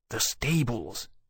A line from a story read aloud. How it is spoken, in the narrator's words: Wolvie whispered